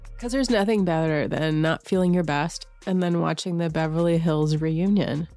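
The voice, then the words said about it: Slightly congested voice from a cold. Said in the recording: “I have a little bit of a cold”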